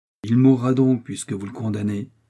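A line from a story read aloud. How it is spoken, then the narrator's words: Firm tone. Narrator (French): dit D'Artagnan d'un ton si ferme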